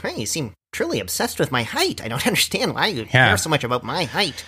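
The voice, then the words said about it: Good imitation of another person's voice. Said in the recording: “that's a good impression of Ben Shapiro, by the way, real. Yeah, you actually have his voice down. You need to talk about 10 times faster, but you've got the voice.”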